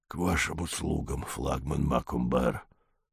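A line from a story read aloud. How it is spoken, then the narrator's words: Strangled hiss. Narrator (Russian): Сдавленный голос прошипел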